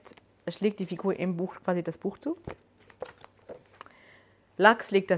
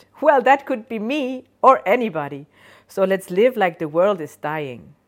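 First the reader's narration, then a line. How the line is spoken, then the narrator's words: Cheerful laughing voice. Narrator (German): Die Stimme lacht fröhlich und sagt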